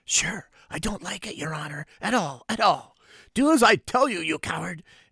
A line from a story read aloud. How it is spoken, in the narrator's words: whispers